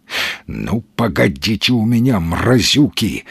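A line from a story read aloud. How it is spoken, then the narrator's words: Angry hiss. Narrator (Russian): злобно зашипел Маломальский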